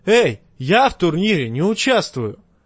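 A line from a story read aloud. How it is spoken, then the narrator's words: Shout. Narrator (Russian): он крикнул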